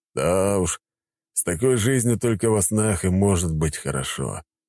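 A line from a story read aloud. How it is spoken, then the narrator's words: Grumbling man. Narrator (Russian): ворчал мужчина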